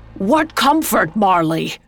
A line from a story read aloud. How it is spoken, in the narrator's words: Scrooge shouting over the howling wind